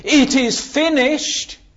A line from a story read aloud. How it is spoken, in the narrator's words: shouting in triumph